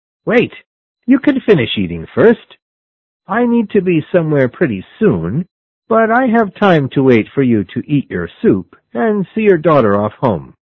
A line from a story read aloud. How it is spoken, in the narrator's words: the man shouted to him